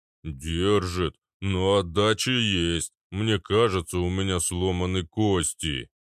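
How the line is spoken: Deep bass voice. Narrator (Russian): пробасил гигант

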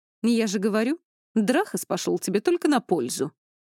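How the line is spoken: Scoffing. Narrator (Russian): хмыкнула Хильда

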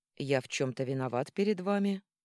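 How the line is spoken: Calm question. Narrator (Russian): спокойно спросил Арман

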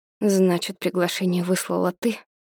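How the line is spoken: Dry lifeless voice. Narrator (Russian): сухим безжизненным голосом спрашиваю

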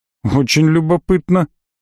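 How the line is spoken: Skeptical snort. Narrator (Russian): хмыкнул

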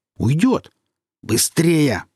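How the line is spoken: Growled. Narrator (Russian): прорычал Серж

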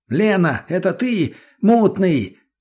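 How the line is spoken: Shout. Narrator (Russian): закричал я

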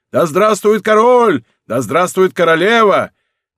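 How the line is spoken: Several voices shouting. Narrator (Russian): Несколько голосов закричали

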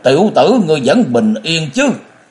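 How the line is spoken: Sudden shout. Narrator (Vietnamese): Nhậm Lợi Thân chợt quát lên

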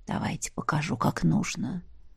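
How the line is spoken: Dragon's whisper. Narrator (Russian): прошептал дракон

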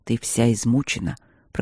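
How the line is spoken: Calm. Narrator (Russian): проговорил он спокойно

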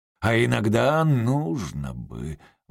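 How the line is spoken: Gloomy remark. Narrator (Russian): мрачно заметил отец Консет

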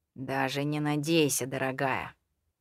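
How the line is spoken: Gloomy reply. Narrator (Russian): мрачно ответил

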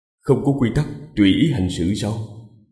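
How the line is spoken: Smiling. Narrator (Vietnamese): Vương Lâm mỉm cười

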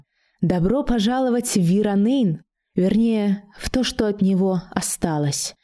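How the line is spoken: Soft pleasant voice. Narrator (Russian): произнесла неожиданно мягким и приятным голосом

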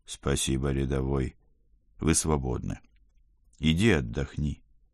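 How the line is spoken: Soft, gentle. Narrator (Russian): мягко добавил я

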